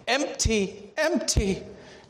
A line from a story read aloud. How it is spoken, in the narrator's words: she choked at last through her tears